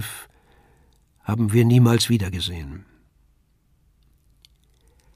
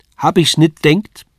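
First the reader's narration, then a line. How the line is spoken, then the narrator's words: Shouted. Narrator (German): rief sie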